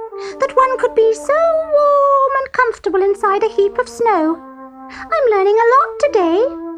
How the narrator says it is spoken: squeaked to himself

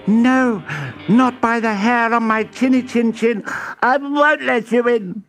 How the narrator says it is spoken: squealed the second little pig

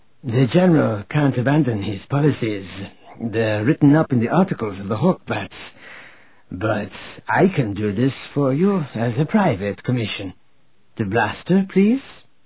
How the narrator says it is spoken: said in her husky Seku voice

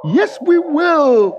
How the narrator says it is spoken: the woman shouted for joy

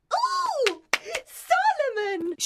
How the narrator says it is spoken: she cried

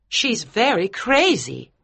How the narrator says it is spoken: cried Mrs

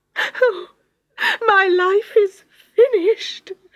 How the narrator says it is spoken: she sobbed

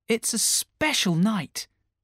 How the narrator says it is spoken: Peter replied brightly

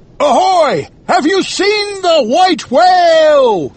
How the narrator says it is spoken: he shouted

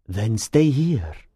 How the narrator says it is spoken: the Persian said quietly

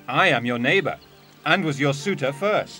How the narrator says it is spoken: exclaimed Gremio

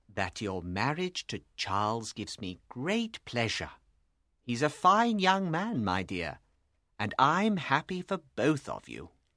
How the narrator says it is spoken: replied calmly

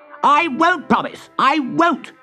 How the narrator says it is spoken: screamed Toad

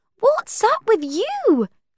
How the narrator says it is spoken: Cordelia cried

